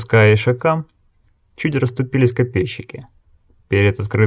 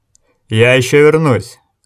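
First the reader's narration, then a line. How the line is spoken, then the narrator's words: Loud promise. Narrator (Russian): громко пообещал Огард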